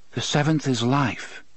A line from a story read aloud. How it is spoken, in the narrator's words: the man in black said softly